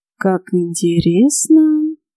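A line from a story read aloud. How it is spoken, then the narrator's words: Drawl. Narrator (Russian): протянул Морган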